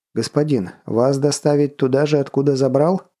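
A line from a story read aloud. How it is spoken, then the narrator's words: Plain. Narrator (Russian): спросил Фэт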